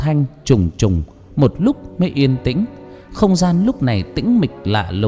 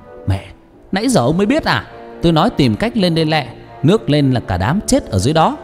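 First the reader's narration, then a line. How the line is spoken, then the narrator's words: Loud shout. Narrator (Vietnamese): Năm em hét lớn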